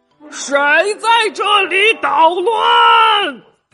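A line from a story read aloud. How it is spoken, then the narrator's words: Fierce loud roar. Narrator (Chinese): 恶狠狠的瞪着眼睛，大声的吼道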